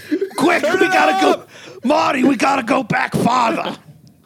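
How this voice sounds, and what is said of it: Terrible Doc Brown impression. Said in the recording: “my also very terrible Doc Brown impression”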